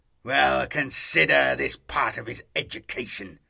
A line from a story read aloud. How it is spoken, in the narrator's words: the Astartes snapped